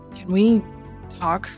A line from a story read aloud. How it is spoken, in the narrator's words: she mumbles to her very quietly